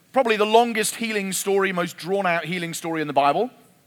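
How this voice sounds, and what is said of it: English accent. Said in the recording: “you'll get used to my accent ... English people ... they have an English accent”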